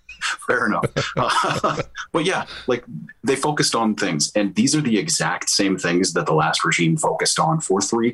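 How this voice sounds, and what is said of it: Canadian accent. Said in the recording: “it's a Canadian accent”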